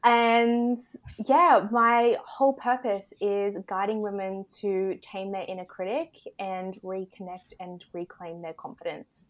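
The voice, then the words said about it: Australian accent. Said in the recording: “I am in Australia, if you can't tell by my accent.”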